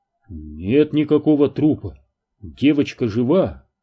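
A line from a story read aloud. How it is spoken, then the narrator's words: Bewildered. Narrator (Russian): растерянно ответил Дэн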